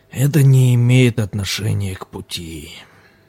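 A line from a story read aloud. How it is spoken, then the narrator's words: Sighing. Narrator (Russian): вздохнул лама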